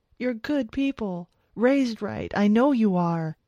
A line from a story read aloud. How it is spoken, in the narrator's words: Paul was saying, words rushing out of his mouth now as he pleaded for his life